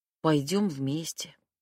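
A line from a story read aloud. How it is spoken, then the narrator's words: Heavy sigh. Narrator (Russian): тяжело вздохнув, ответила я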